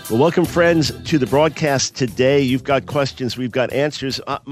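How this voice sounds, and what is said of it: Slightly stuffy, congested nasal voice. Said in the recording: “My nose sounds slightly stuffed”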